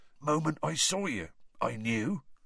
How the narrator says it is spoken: he was saying in an oddly husky voice

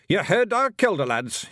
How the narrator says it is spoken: he shouted

